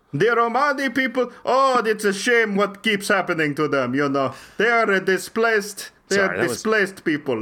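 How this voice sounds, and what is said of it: Put-on Romanian accent. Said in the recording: “Don't make fun of my accent. This is a proud Romanian accent.”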